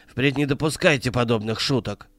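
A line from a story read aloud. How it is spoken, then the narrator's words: Angry. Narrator (Russian): сердито сказал он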